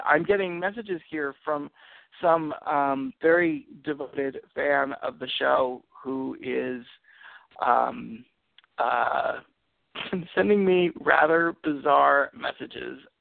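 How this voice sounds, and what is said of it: Strained, unwell-sounding voice. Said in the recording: “as you can hear, my voice is not doing so well”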